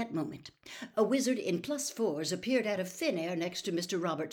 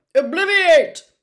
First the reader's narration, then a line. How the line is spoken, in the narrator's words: he said sharply